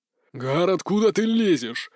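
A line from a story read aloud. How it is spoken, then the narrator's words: Hoarse indignation. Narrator (Russian): осипло возмущался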